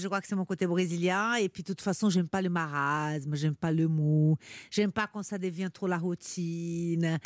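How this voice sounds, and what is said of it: Foreign-accented French. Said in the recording (French): “vous avez été refoulé à cause de votre accent”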